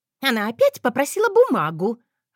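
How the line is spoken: Shrill voice offstage. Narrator (Russian): раздался визгливый голос за углом

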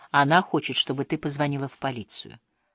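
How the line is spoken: Deliberately calm, hiding fear. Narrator (Russian): Он, как и в прошлый раз сказал, намеренно спокойно, не выдавая своего страха

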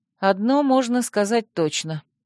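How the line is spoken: Sighing reply. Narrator (Russian): вздохнула я в ответ

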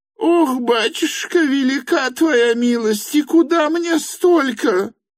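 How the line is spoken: Widow wailing. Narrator (Russian): завопила было вдовица

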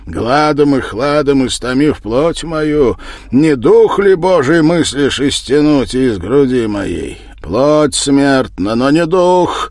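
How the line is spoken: Nearly shouted. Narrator (Russian): почти выкрикнул Константин

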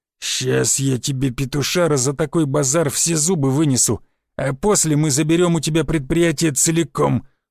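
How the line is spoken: Angry, through teeth. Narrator (Russian): зло процедил Рыло

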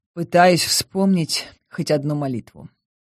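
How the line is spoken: Gloomy. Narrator (Russian): мрачно ответила я

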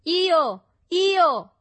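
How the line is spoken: Companions shouting. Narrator (Italian): gridarono i compagni

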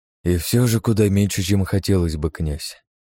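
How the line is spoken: Sighing. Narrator (Russian): вздохнул кардинал

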